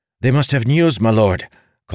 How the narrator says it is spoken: Calden said eagerly

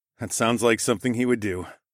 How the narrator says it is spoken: I said with a sigh

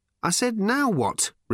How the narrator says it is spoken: repeated Ford irritably

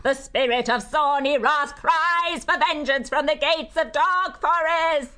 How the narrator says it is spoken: Grisul's sudden scream rent the night

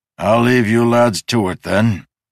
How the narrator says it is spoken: the guard groaned

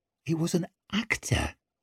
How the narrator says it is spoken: muttered Tallow for about the 5th time

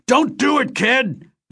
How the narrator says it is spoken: Vance screamed over the comlink channel, now powerless to stop me

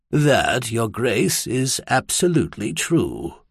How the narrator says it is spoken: Wagner said softly

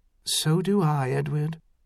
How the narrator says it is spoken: she said softly

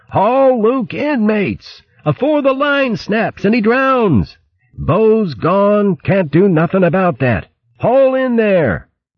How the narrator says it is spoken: Berg called out to the crew

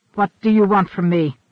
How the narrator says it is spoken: he snapped

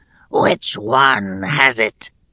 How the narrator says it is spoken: In a wheezing, rasping voice, he demanded

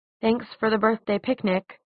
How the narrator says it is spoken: she said, trying to keep her tone neutral

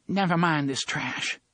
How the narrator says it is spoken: she said, and her voice only quivered a little

